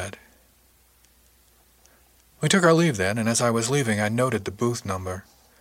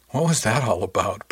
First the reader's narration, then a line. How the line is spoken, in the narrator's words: Brill asked